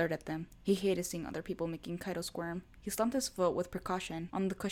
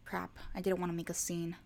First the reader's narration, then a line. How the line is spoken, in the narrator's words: Saiki sighed